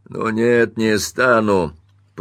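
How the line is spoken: Grumbling. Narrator (Russian): проворчал мистер Тирнан

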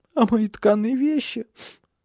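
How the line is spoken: Sobbed. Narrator (Russian): всхлипнула

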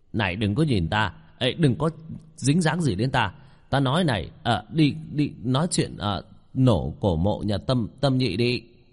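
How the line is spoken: Exclaiming. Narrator (Vietnamese): Hứa Quảng kêu lên

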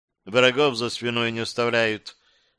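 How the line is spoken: Indifferent. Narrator (Russian): пояснила та равнодушным голосом

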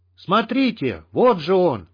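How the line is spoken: Sudden yell over battle noise. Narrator (Russian): заорал вдруг один из долговцев, умудряясь перекричать шум боя

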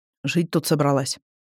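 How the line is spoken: Muttered. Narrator (Russian): буркнул Индан

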